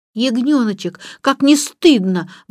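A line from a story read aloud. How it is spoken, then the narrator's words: Exclaiming. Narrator (Russian): воскликнула Джейн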